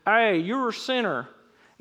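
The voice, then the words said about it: Put-on Southern American accent. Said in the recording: “I always hear it in that southern accent for some reason.”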